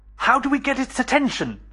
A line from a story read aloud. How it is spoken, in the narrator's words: shouted Benchley